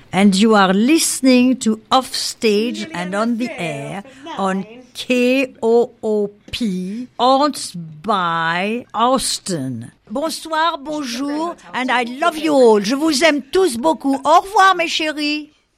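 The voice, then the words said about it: Playful put-on French accent. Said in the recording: “How can you not like that accent? It's adorable. ... It's because it's French.”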